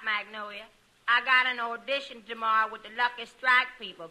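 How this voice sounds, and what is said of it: Thick put-on accent. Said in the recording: “You can thin out your accent a little now.”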